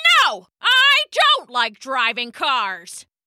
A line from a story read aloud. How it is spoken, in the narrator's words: shouted Mr